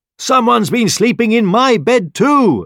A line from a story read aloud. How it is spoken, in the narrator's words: exclaimed the mother bear